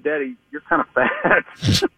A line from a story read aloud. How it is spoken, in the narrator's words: he sort of laughs at me and he goes